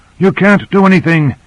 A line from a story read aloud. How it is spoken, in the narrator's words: he panted